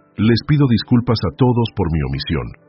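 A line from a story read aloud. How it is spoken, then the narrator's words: Firm voice despite everything. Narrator (Spanish): dijo Alejandro con voz firme a pesar de todo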